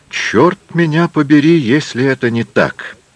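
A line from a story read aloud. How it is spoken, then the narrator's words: Exclaiming, shaking with laughter. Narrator (Russian): воскликнул, все больше трясясь от смеха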